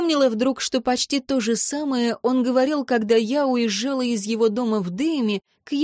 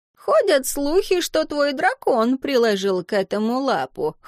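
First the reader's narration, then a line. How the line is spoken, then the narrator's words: Chuckling wizard. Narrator (Russian): хохотнул маг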